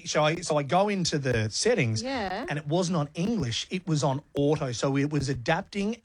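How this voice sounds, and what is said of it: Broad Australian Bogan accent. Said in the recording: “My Bogan accent ... my Bergen accent ... Oh, my God, that's how I sound.”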